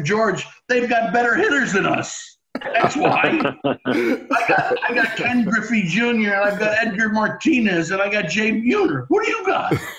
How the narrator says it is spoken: He started laughing

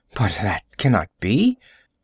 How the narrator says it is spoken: she murmured

